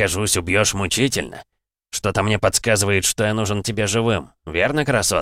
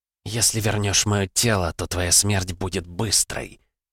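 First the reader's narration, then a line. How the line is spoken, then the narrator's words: Hissed through gritted teeth. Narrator (Russian): процедила сквозь зубы ведьма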